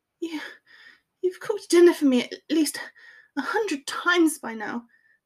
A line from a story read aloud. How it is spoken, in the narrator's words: Hermione said in a breathy groan against his mouth